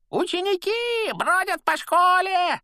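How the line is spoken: Deafening yell. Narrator (Russian): оглушительно заорал Пивз

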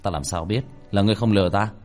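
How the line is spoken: Cold. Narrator (Vietnamese): Tiểu Thất lạnh lùng

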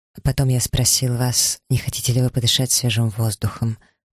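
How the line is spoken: Quiet. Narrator (Russian): продолжил он тихо

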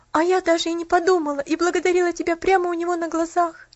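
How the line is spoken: Sobbing. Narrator (Russian): всхлипнула Поллианна

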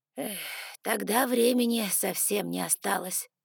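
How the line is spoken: Sighing. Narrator (Russian): вздохнул мистер Эшли

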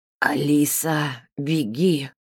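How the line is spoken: Hiss. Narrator (Russian): прошипел Гена

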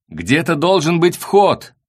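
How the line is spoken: Shouting over wind. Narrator (Russian): сквозь ветер прокричал Меркуриев

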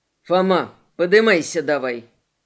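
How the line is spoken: Loud bark in ear. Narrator (Russian): Морли рявкнул это прямо в ухо, заглушая и трубу, и мысли

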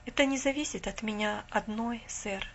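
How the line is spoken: Calm. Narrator (Russian): спокойно сказала она

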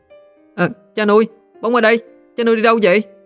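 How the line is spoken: Child shouting. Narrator (Vietnamese): thằng Bóng trông thấy anh, nó liền hét lên

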